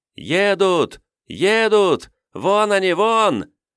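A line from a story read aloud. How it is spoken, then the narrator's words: Overlapping excited shouts. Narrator (Russian): наперебой закричали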